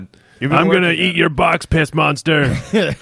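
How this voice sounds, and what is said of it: Gruff crocodile character voice. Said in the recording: “In sort of a shitty Tuck. ... Impression. ... good impression. ... That's a good one. ... So you say that underwater in a crocodile voice.”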